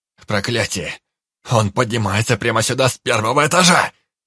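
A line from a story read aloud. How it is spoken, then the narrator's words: Distant shout from below. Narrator (Russian): Закричал с нижнего лестничного пролета Анджей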